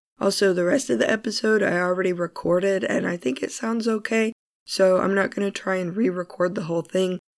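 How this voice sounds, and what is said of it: Hoarse, congested, strained voice. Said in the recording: “I still have this rotten cold, although I'm getting over it. As you can hear, my voice is pretty messed up”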